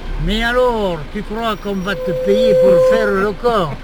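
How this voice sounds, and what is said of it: Very thick regional French accent, rolled r's. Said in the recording (French): “Quel accent! ... À couper au couteau! ... Vous roulez bien les airs”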